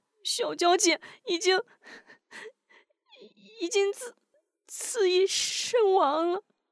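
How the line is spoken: Sobbing. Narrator (Chinese): 韩晶止住哭声，抽泣道

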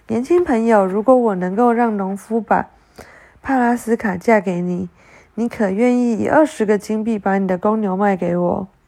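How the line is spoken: Mysterious smile. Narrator (Chinese): 他带着神秘的微笑说道

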